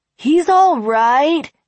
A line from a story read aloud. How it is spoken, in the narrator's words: Appleseed said cheerfully